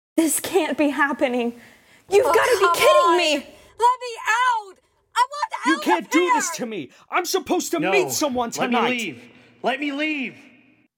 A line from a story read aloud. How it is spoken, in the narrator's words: Screams, rage, shrieks, insults, pleading, and roars